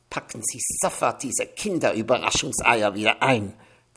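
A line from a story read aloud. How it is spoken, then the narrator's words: Hissed. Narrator (German): zischte der Chef-Concierge zu Evchen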